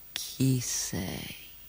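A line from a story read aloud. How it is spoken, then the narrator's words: Sleepy question. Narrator (Italian): chiese con voce sonnolenta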